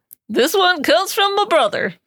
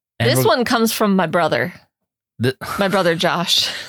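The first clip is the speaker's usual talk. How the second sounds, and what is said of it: Southern American accent. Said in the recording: “sounded so Southern.”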